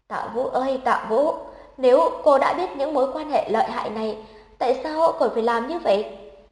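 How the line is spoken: Sighing. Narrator (Vietnamese): Lão Trương thở dài

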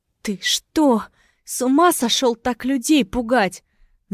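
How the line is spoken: Stammering squeak. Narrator (Russian): заикаясь, пропищала Лига

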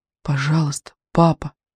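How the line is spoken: Whispered. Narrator (Russian): шептал медведик

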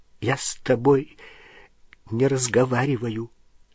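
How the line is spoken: Strained choked voice. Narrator (Russian): сказала она сдавленным голосом

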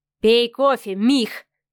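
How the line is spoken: Gritted, clipped. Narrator (Russian): процедил Адмиралов

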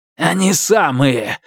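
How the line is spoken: Growl. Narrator (Russian): зарычал Фаразар

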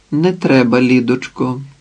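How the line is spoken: Calm. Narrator (Ukrainian): спокійно мовила Іветта

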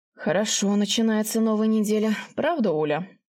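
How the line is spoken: Snorting chuckle. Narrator (Russian): Я хмыкнула

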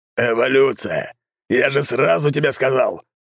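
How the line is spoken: Old man roaring. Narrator (Russian): взревел старик

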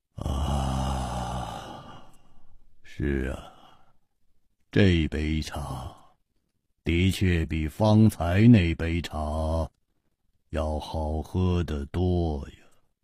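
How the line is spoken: Murmured. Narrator (Chinese): 喃喃地说

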